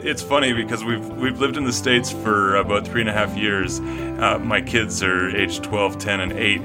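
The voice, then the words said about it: Canadian accent. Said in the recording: “are you from Canada? ... I can tell by the accent ... the way you said about. Now, the correct way to say it is about, but you have a different way of saying it.”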